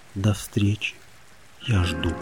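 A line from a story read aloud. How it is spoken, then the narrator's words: Whisper. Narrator (Russian): прошептал морю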